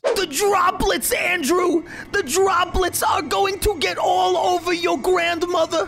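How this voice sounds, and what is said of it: Imitates another person's voice. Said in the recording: “You think Tim does a better Fauci than me? ... Yeah, he does.”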